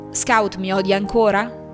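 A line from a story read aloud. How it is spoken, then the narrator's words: Plain. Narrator (Italian): disse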